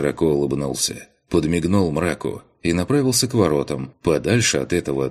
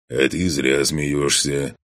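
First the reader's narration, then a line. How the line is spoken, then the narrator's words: Smirking snort over channel. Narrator (Russian): хмыкнул в канале мрак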